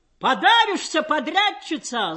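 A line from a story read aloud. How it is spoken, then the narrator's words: Spirited shout from crowd. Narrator (Russian): задорно крикнул кто-то из толпы резалок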